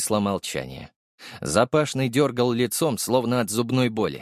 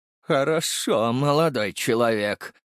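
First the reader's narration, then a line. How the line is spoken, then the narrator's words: Through teeth, restrained anger. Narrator (Russian): процедил сквозь зубы Семен Владимирович, явно с трудом сдерживая гнев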